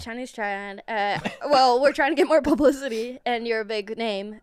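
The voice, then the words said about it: Put-on Chinese accent. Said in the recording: “Give me the accent first... let her surprise us with the accent... You're the leader of the Chinese triad.”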